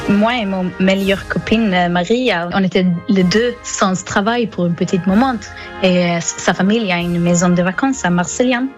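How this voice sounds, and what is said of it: Slight Swedish accent in French. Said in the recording (French): “vous avez un petit accent ... je viens de Suède”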